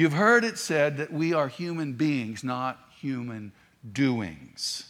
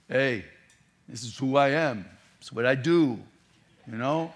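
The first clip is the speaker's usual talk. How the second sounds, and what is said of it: Put-on Brooklyn accent. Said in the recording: “in a Brooklyn accent”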